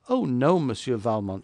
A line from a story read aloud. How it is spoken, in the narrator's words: she replied with a bright laugh